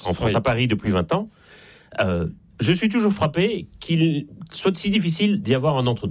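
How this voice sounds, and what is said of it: Slight Belgian French accent. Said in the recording (French): “ça s'entend un peu d'ailleurs à mon accent. Je suis né en Belgique”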